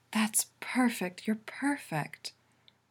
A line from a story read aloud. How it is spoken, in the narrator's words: Allura moans